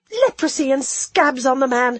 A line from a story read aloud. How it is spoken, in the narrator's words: I gasped